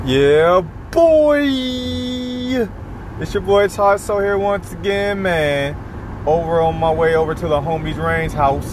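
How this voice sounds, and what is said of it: Very happy, upbeat voice. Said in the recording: “can hear from my voice, I'm just extremely, extremely happy”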